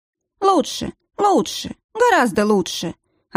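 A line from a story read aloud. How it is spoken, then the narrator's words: Unexpectedly cheerful. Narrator (Russian): ответил тот неожиданно жизнерадостным тоном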